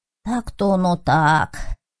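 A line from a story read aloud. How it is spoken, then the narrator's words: Sighing after a pause. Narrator (Russian): помолчав, вздохнуло лохматое существо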